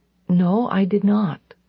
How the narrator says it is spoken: I answered quietly

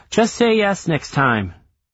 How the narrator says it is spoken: Wade struggles to find his voice and spits out

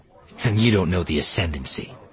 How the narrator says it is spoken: Fel snapped

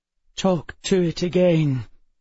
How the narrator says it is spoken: Emma said, her voice woozy and vague

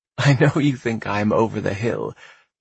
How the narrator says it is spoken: Tate said, laughing

